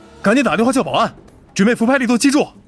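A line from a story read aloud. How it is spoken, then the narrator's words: Shouting. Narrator (Chinese): 赵斌向护士喊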